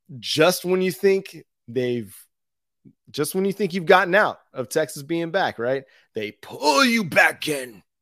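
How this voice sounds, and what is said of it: Imitates another person's voice. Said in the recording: “my worst Al Pacino impersonation”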